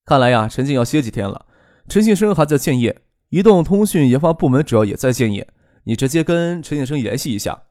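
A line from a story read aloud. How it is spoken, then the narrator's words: Calm, faint smile. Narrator (Chinese): 张克淡淡一笑，说道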